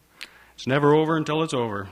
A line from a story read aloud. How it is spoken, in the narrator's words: says Narvel